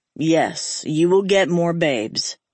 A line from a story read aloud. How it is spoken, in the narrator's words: Hank added dryly